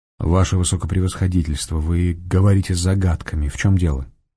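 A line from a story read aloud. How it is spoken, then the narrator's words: Quiet question. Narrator (Russian): негромко спросил Фондорин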